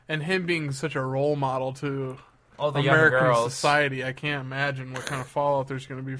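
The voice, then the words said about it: Sarcastic tone. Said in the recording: “I'm being sarcastic ... Of anybody, you know that I'm being sarcastic.”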